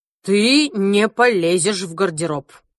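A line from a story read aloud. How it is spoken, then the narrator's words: Stern interruption, father. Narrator (Russian): Строго перебил меня папа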